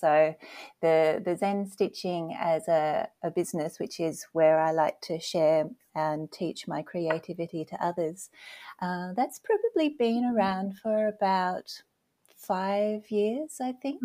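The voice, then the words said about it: Australian accent. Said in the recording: “I have an accent. So originally I'm from Australia”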